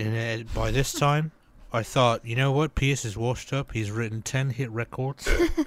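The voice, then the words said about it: Put-on accent. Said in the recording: “You gotta do the accent.”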